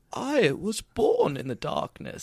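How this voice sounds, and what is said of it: Bane voice with posh British tinge. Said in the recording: “Can you do a good Bane impression? ... That's not bad. ... that's got a little like Jeeves and Worcester there.”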